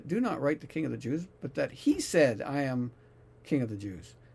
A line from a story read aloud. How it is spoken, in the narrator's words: Pilate answered